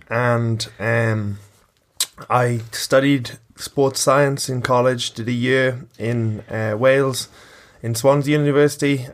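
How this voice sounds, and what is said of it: Mixed Welsh-Irish accent. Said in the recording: “I've got an accent that's neither Welsh nor Irish... Wirish”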